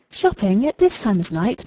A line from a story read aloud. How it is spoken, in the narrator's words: murmured Mrs